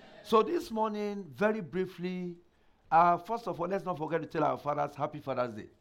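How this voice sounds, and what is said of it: Slightly affected, strained voice. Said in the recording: “My voice is a little bit, ... that's what's affecting my voice”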